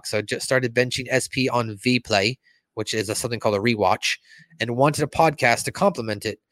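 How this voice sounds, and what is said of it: Put-on European accent. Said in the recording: “Why am I talking in a European accent now?”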